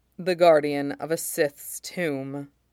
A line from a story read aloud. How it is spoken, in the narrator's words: Mace says grimly